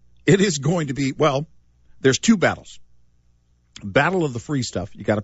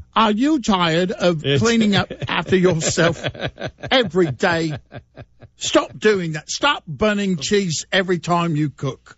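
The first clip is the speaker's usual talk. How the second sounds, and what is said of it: British infomercial announcer voice. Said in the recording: “late night infomercial. With a guy with a British accent.”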